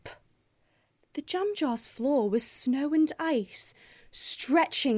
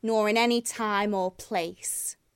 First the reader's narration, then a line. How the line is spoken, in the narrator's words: it sneered